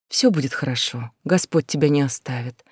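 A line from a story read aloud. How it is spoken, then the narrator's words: Gentle soothing. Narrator (Russian): мягко сказала она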